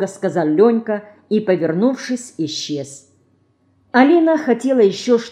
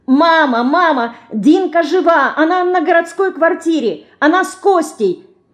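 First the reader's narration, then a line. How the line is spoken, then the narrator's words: Girl shouting. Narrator (Russian): кричала девочка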